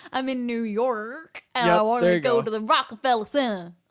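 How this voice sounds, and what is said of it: Put-on Southern American accent. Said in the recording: “Say New York in an American accent... put a lot of emphasis on the R... Your accent is very Southern, like super Southern.”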